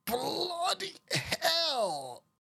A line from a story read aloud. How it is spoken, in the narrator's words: croaked, her weak, cracking voice barely audible